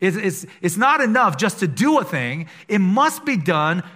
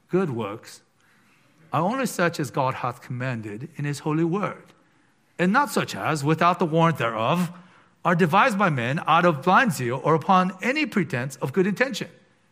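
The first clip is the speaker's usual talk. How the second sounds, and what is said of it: Put-on British accent. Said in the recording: “let me say it in my kind of British accent ... the accent might have thrown you a little bit”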